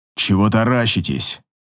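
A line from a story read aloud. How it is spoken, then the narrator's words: Hoarse question. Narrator (Russian): спрашивает хрипло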